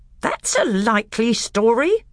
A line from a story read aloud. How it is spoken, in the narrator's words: growled Nicobrick